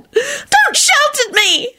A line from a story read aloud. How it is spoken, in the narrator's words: she screeched